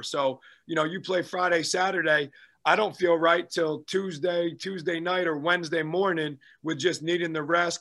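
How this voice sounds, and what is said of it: Slightly hoarse voice. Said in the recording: “You know, you can still hear me. I'm still kind of hoarse a little bit.”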